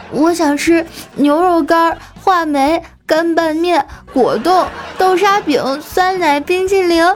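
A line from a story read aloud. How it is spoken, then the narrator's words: Child just stopped crying. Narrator (Chinese): 丸子立马就不哭了，说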